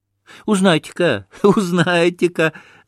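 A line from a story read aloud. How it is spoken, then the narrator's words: Boys laughing. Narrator (Russian): засмеялись мальчики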